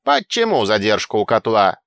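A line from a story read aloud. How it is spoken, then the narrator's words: Loud bellow filling cave. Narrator (Russian): гаркнул на всю пещеру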